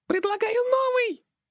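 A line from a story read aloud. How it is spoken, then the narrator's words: Immediate shriek, imp. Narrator (Russian): Тут же завопила импа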